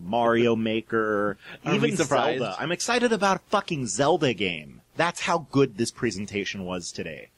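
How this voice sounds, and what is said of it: Excited, maniacal ranting delivery. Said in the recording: “You've probably heard it in my voice. I'm practically ranting maniacally”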